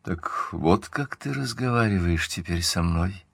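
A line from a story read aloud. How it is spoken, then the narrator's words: Muffled. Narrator (Russian): сказала она глухо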